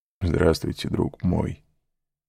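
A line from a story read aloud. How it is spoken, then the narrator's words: Smiling through tears. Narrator (Russian): сказал хозяин, невольно улыбнувшись сквозь слезы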